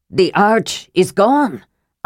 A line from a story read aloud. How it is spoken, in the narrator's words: Armin gasped